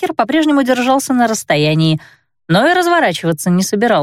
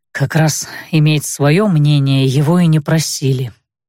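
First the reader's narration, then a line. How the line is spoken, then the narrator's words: Captain grumbling. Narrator (Russian): буркнул капитан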